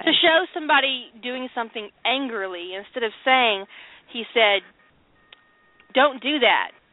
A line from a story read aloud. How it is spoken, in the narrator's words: Rodney said angrily